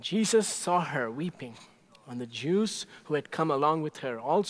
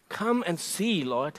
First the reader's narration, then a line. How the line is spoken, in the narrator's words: they replied